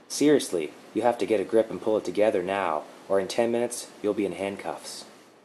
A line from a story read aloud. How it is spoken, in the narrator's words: In a calm and gentle tone, she said